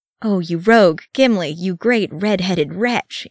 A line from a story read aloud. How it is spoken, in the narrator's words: he groaned